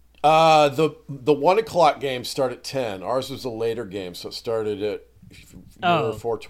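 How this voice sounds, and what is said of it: Weak, tired voice. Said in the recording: “I'm just worn out ... my voice is a little weak, and I'm just kind of tired from it all.”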